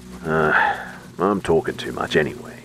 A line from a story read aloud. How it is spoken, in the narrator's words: he grumbled